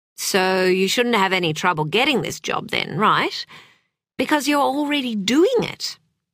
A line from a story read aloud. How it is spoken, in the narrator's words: her mother had said last night, cheerfully oblivious